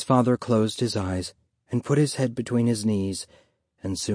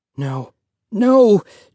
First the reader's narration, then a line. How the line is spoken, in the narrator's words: Joseph cried